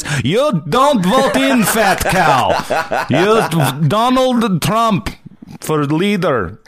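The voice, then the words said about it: Mock Russian accent. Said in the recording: “you probably fucking hear the accent in the comments, and the guy's name's Yuri”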